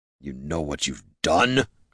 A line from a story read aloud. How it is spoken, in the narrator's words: grumbled the smith